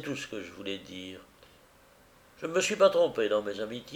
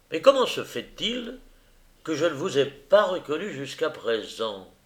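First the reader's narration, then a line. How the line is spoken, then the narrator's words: Exclaimed. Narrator (French): s'écria-t-il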